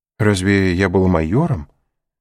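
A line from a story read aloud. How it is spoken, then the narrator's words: Timid old man. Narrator (Russian): робко осведомился старый воин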